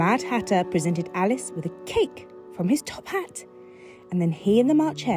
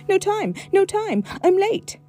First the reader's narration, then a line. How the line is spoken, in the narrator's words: cried the white rabbit